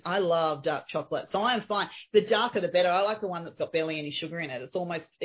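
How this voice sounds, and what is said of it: Australian accent. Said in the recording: “they don't understand the accent, but I say things that are Australianisms”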